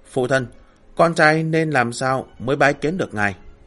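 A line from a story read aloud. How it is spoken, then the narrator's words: Sighing question. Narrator (Vietnamese): thở dài một tiếng, lại rung tinh đinh hỏi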